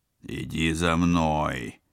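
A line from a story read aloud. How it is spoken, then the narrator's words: Reluctant growl. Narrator (Russian): вынужденно рыкнул спецагент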